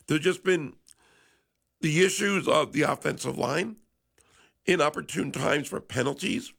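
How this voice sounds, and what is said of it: Slightly congested, sick-sounding voice. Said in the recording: “I apologize for my voice. A little bit of a cold.”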